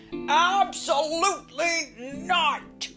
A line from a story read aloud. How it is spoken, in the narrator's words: roared Papa